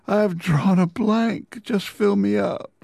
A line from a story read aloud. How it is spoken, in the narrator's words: the poet sighs